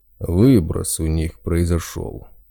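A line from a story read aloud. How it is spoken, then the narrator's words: Big man's snort. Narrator (Russian): хмыкнул здоровяк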